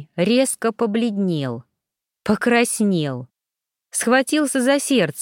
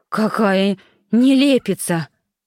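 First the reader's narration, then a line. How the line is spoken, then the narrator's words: Breathless moan. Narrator (Russian): часто дыша простонал Авдей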